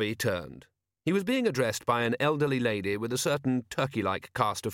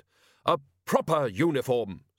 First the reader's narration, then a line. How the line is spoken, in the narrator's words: snapped